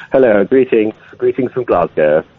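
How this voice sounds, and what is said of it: Put-on extra posh voice. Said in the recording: “putting on a posh voice? ... already posh ... trying to be even posher.”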